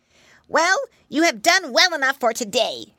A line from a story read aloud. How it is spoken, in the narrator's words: she grumbled